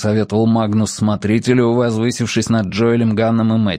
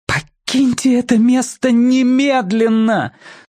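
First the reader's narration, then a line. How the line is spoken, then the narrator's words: Straining exclamation. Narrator (Russian): Собрав всю свою силу, воскликнула миссис Кинкэнон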